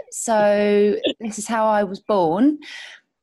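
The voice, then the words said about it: Childhood English dialect. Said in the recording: “my dialect was a bit more like this. It was a bit different to how Gwen speaks on the show.”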